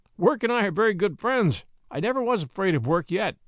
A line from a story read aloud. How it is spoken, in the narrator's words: said John with a laugh